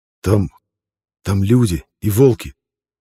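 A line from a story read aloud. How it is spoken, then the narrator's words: Slightly trembling voice. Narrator (Russian): слегка дрожащим голосом смог выдавить из себя Пинта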